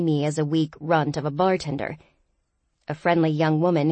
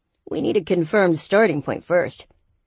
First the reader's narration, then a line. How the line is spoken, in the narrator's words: Aaron replied